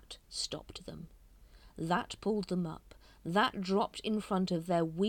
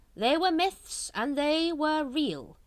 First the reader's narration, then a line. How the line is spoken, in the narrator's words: he said loudly